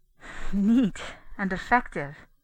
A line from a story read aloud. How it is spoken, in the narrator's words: she said shakily